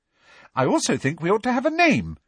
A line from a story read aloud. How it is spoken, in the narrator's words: she said brightly